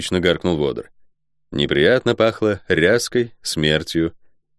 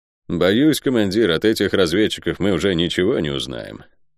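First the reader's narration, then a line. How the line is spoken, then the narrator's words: Gloomy. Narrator (Russian): мрачно произнес Йогер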